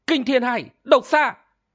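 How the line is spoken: Terrified scream. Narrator (Vietnamese): Thôi Ngọc Linh kinh hãi, thét lên

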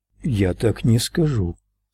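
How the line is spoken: Calm. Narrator (Russian): спокойно произнес Ральф

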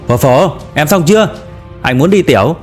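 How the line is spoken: Impatient shout. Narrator (Vietnamese): Đinh Hạo đợi không nổi nữa, hét vào phía trong

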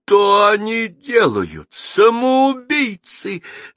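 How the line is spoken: Frantic scream. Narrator (Russian): закричал не своим голосом видавший виды Шлиер-Давейка

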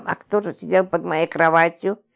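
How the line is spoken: Bewildered muttering. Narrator (Russian): Растерянно бормотала

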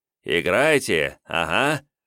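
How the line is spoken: Snorting, condescending. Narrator (Russian): хмыкнув, милостиво кивнул Жмудин

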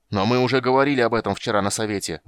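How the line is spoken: Shouted out. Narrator (Russian): выкрикнул Карамон

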